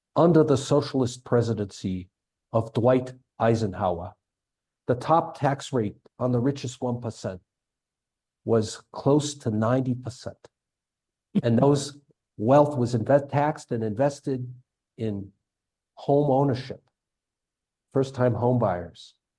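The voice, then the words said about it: Imitates another person's voice. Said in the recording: “my imitation of my U.S. senator”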